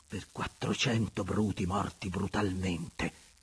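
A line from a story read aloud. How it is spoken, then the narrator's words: Murmured. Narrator (Italian): mormorò Andrea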